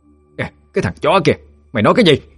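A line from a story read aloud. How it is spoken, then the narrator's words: Furious shouting. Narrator (Vietnamese): Bà Hạnh tức điên mà quát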